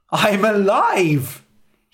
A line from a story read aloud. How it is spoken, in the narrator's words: cried